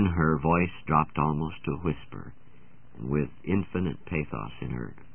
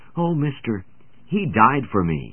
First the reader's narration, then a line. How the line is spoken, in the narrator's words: the little lips lifted to his ear, and her eyes filled as she eagerly answered